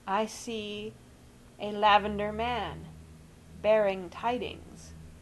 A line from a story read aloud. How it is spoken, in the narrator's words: he said, quite distinctly and slowly